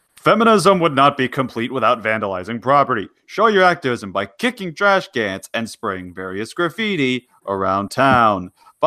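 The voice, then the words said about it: Mock narrator voice. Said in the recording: “do my narrator voice.”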